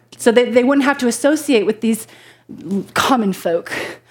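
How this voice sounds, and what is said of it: Put-on British accent. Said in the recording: “that was a British accent, by the way”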